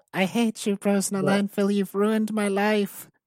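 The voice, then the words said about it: Poor imitation of a girl's voice. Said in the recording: “That was a horrible girl voice. ... after I did that impression”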